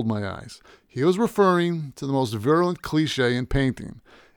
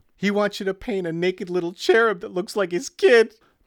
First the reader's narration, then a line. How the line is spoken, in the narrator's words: giggled